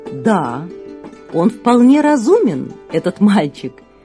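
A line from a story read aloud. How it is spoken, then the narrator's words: Laughing, king. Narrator (Russian): засмеялся царь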